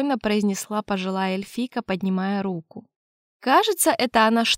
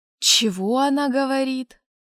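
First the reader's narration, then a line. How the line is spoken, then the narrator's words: Through gritted teeth. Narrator (Russian): процедил я стоящему рядом Цеймурду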